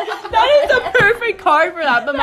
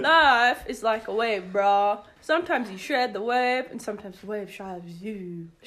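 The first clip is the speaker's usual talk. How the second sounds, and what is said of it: Bad surfer dude accent. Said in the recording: “the surfer? Like, let's go ride the wave, bro. ... my accent sucks”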